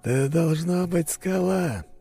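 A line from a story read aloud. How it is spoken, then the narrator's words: Muffled, hollow voice. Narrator (Russian): произнес теневик глухим голосом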